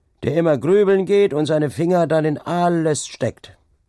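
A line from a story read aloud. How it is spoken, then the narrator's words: Guest calls out. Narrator (German): rief einer von den Gestleuten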